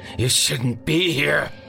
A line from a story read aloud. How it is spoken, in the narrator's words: he finally snarled